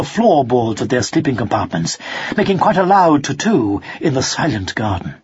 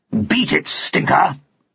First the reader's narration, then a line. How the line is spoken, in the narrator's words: growled Pug